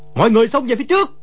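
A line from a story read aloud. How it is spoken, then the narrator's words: Desperate loud shout. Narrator (Vietnamese): Đồ Nhĩ Bố Thanh thầm kêu khổ, biết đã trúng kế địch nhân, quát lớn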